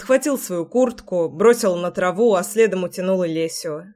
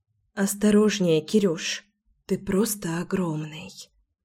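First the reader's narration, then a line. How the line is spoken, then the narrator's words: Whispered. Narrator (Russian): шепнула Леся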